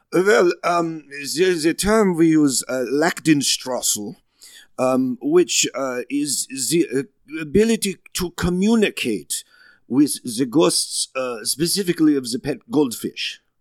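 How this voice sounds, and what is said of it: Foreign accent. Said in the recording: “He was saying decades, decades. I know it's his accent.”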